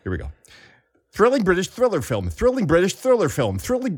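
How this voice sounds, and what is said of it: Thick, muffled put-on announcer voice. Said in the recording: “You were doing it that time. You're like a mouthful of matzo balls.”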